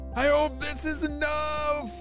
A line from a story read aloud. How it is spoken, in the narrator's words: Jaden shouted to Ava